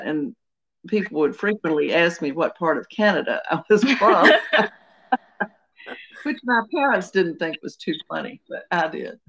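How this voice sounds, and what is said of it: Southern US accent. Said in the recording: “I have a Southern accent and I say out and house and things like that”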